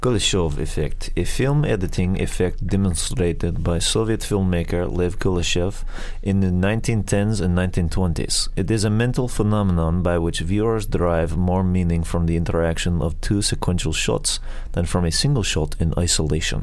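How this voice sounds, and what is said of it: Russian accent. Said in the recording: “read the meaning in your Russian accent”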